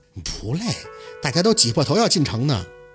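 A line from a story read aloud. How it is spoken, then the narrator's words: Foolish chuckling. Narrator (Chinese): 宝四傻呵呵地笑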